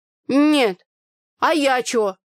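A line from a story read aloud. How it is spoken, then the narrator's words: Indignant muffled drone, mouth full. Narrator (Russian): возмущенно прогудела Таня, откусывая кусок пирога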